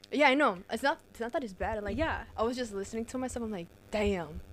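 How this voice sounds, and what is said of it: Strong thick accent. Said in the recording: “a thicker accent I have than you... I have a fucking strong accent”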